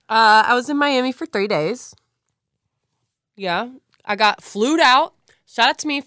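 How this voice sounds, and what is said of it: Hoarse, partly lost voice. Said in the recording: “I did lose my voice a little bit from partying ... So I'm getting it back now”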